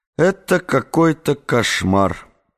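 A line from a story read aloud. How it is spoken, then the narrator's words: Muttering. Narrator (Russian): пробормотал Эдгар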